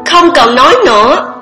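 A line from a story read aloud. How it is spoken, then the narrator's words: Shouting. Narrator (Vietnamese): Kiều Uyển Vãn hét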